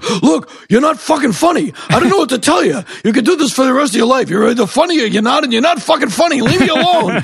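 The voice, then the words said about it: Poor imitation of another person's voice. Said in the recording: “worst Rodney Dangerfield impression I've ever heard ... I don't do a good Rodney Dangerfield impression”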